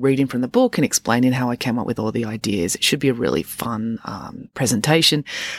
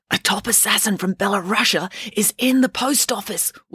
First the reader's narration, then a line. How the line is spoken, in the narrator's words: whispered Mum